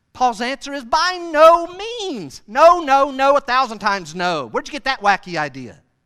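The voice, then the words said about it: Yelling, loud preaching. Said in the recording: “Why am I yelling so much, by the way? Sorry.”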